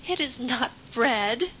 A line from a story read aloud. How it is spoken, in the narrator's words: says Mary, laughing